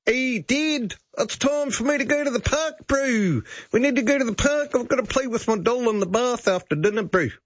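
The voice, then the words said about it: Put-on New Zealand accent. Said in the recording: “a New Zealand accent? And you start having to have conversations with your child who has a New Zealand accent.”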